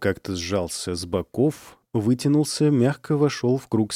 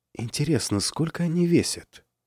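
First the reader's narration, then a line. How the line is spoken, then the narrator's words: Whispered question. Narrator (Russian): спросила шепотом Снежина у Павлыша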